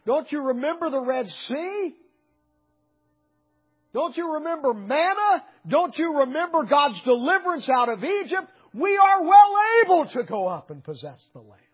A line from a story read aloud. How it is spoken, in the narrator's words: wanted to holler out